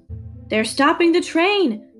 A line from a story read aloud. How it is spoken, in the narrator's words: a man called out